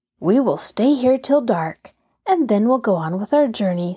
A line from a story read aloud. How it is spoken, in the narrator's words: said Henry cheerfully